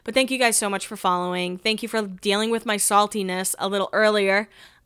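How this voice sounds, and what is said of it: Hoarse, strained voice. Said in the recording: “My voice, I can hear it going hoarse.”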